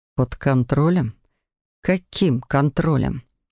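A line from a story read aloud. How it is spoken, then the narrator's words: Through gritted teeth. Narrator (Russian): Процедил Себастьян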